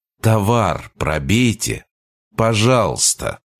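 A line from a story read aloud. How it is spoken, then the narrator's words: Very quiet, friendly. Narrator (Russian): Я это произнес максимально тихо и доброжелательно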